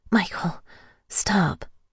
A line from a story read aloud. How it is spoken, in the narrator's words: I breathed out